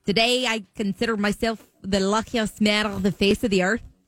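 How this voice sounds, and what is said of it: Attempted Scottish accent sounding Irish. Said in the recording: “Is it Scottish? ... That was good, ... That feels more Irish.”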